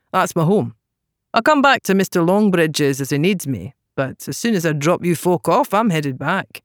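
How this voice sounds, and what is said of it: Very thick regional accent. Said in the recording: “in an accent so thick it would require 10 lanterns to see through”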